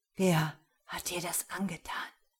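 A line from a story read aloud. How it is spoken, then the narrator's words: Whispered. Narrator (German): flüsterte er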